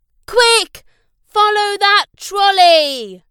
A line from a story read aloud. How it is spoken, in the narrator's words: shouted Glenn